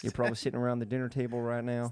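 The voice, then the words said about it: Poor Joe Biden impression. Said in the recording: “That's Joe Biden. Joe Biden accent. ... Stick to your day job. ... What the fuck is that accent?”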